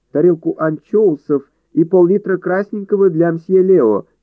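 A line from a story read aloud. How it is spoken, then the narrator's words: Approving shout toward kitchen. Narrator (Russian): крикнула Денис в направлении кухни тоном полного одобрения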